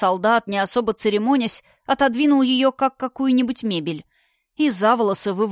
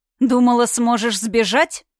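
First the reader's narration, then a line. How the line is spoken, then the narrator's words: Spiteful, through gritted teeth. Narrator (Russian): злобно процедил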